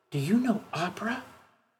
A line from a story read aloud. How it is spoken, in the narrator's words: one of the teachers questioned me in a whisper